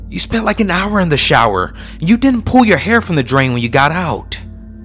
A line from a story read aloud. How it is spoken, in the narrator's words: he snapped at me